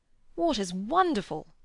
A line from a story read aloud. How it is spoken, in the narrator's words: cried Freddy